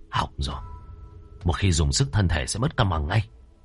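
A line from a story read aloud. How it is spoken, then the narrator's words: Quiet voice. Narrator (Vietnamese): anh gầy nhỏ giọng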